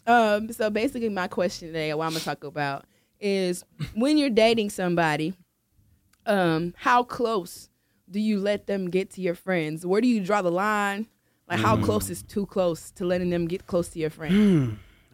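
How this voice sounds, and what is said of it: Hoarse, strained voice. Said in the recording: “Your girl lost her voice”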